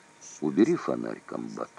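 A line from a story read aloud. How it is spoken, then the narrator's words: Quiet, tense. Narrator (Russian): тихо проговорил Кузнецов, чувствуя, что может произойти между ними в эту минуту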